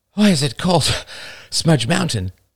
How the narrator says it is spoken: panted Emily

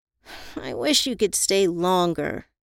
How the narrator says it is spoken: whined

